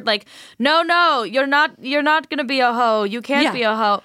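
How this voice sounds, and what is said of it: Put-on vague European accent. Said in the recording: “My like Euro blend accent for no reason.”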